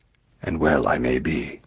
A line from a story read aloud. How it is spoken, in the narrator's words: said the stranger